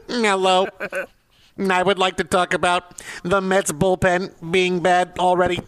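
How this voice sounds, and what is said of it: Weird alien voice. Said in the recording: “that impression ... Why do aliens all have to have crazy-ass voices? ... Why do they always have to have really weird voices?”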